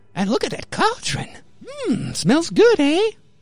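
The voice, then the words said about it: Old witch voice. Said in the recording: “it's always like basically the same as the old witch voice”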